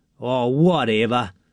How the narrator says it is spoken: sneered Jack

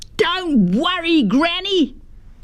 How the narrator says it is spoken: Felix yelled back

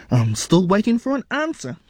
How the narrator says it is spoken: his mother said impatiently

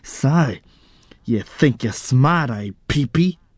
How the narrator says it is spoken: He snarled

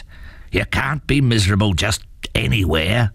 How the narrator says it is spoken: growled his father

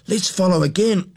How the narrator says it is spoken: cried Jack

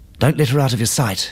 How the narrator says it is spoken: she panted

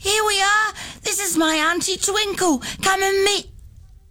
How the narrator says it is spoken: Nettie ran into the classroom, shouting

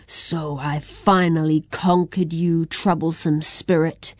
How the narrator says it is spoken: growled Kushi

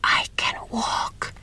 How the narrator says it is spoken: she whispered

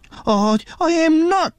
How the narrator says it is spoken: he spluttered

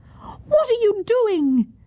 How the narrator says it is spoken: Yun Ok cried in anger

